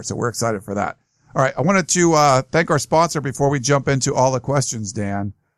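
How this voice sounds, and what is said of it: Hoarse, strained voice. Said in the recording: “excuse me. I'm excited. I'm losing my voice here. A lot of, a lot of talking the last couple days.”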